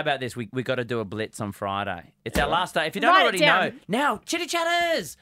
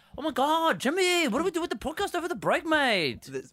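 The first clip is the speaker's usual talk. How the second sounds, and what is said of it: Sudden put-on accent. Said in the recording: “What was that accent? ... Because it just came out naturally.”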